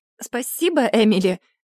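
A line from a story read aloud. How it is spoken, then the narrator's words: Forced out reluctantly. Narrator (Russian): наконец выдавила я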